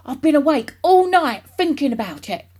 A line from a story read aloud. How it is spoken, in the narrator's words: he cried